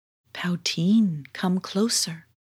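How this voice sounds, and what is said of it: Very soft voice. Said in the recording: “the book said in a very soft voice,”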